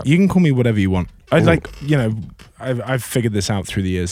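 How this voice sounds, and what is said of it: Speaks with a noticeable accent. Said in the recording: “He's also not faking that accident or that accent, folks. ... Funny, I got this accent through an accident.”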